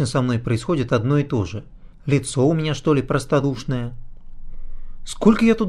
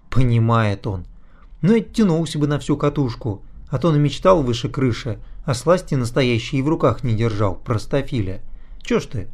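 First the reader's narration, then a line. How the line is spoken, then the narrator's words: Sighing. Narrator (Russian): Я вздохнул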